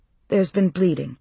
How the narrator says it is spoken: Alex said, her voice even

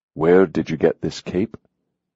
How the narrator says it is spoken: he asked evenly

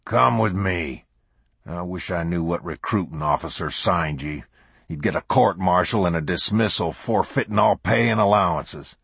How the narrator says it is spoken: The sergeant growled

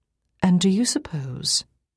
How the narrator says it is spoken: I said this gently, without a hint of sarcasm

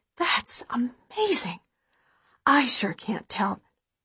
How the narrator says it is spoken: my mom whispers

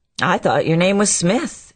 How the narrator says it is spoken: he returned, endeavoring to get the last laugh

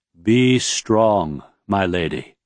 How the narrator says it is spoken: Aishi said in his deep, stately voice

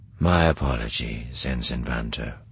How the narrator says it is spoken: Thrawn said quietly into Eli's tangled thoughts

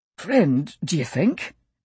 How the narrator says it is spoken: Ernie asked, his voice strained but not panicked

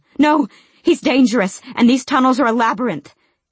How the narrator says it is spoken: she panted

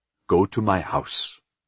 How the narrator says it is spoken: he said quietly

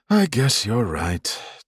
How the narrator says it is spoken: Tal said with a mock sigh

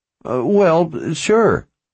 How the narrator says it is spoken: Warren stammered

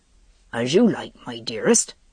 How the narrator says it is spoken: he mumbled

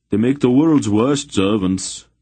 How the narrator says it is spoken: Droblek grumbled

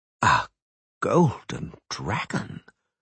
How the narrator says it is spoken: Dorigeray whispered

